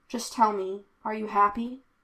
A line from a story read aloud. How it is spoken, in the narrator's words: Ambrose asked, sounding quietly like a little boy